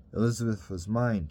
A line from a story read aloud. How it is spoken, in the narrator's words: Terence said